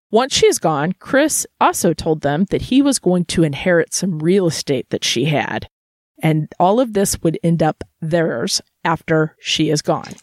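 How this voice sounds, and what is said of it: Missouri accent. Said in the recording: “Your Missouri accent makes you say theirs.”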